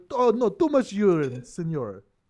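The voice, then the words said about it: Put-on Mexican accent. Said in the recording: “your accents all, are always never correct ... every Punjabi man's bladder has a Mexican accent”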